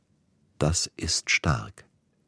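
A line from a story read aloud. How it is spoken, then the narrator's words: Quiet. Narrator (German): sagte er leise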